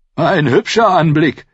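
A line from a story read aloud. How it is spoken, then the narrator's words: Said cheerfully. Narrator (German): sagte Sir Wendell Manderly fröhlich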